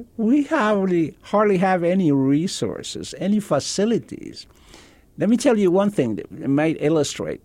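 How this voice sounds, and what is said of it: Very good American accent. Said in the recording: “with a very good American accent”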